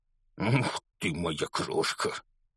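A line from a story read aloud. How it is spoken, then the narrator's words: Forced out laughing. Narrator (Russian): со смехом выдавил из себя мистер Дурсль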